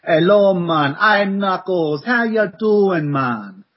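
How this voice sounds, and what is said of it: Put-on Jamaican accent. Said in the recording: “a Jamaican accent?”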